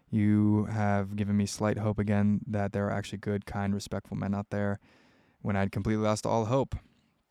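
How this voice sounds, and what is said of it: Soothing voice with an accent. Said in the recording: “Your voice and accent is very soothing to me.”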